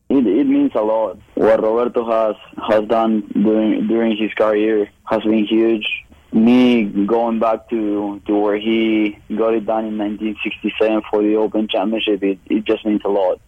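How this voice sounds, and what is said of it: Argentine accent in English. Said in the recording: “they heard my accent and they asked me where I was from, and I said Argentina”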